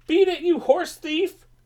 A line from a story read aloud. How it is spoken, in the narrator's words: In desperation, Pete cried